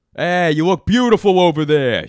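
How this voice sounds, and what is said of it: Gruff confrontational New York accent. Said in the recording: “they're doing a New York accent ... it sounds gruff and also confrontational”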